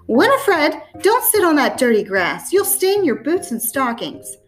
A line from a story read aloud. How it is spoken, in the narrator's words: a thin voice, her grandmother's, piped